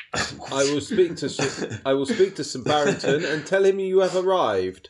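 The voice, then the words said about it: Posh butler voice. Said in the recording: “You sound like Barry, doing a posh voice.”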